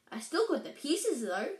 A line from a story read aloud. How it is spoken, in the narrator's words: added brightly